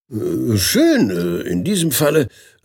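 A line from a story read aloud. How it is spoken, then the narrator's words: Stammered. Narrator (German): stammelte er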